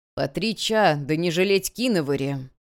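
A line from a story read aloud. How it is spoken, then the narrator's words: Grumbled. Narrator (Russian): пробурчал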